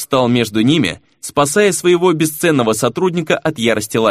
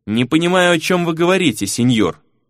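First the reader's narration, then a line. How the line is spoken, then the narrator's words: Perfectly calm. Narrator (Russian): совершенно спокойно произнес Фернан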